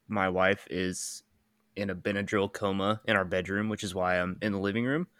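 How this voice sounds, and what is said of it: Slightly nasal, congested voice. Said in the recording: “Allergy season is here in full force. I feel like I sound a little nasally.”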